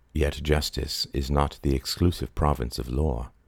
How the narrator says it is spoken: he said softly

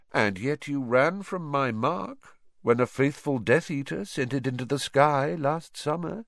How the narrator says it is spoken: said Voldemort lazily

